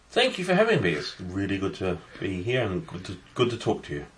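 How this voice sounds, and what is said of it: English accent, slightly mixed. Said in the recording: “Essentially England. ... it's a bit of a mixture of everything. ... I think it's English.”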